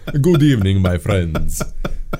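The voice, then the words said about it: Vampire Count accent. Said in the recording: “my character last few years has been Count Darkola ... I got the accent.”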